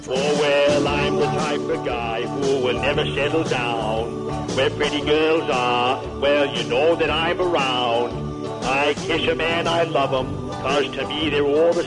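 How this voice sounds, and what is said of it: Singing Ted Kennedy impression. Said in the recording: “it's a great impression. ... was Ted Kennedy singing it”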